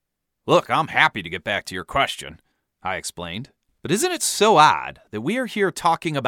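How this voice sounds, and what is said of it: Usual voice. Nothing is said of it.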